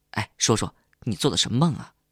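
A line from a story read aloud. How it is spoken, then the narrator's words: Hurried question. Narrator (Chinese): 欧阳急忙问我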